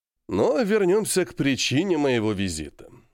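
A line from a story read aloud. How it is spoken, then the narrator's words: Calm. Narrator (Russian): спокойно сказал Глазьев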